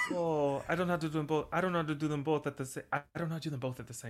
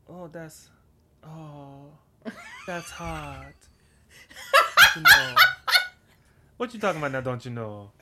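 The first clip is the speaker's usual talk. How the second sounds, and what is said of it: Paris Hilton impression in Creole dialect. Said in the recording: “Paris Hilton speaking in patois ... as Paris Hilton doing Southern dialect?”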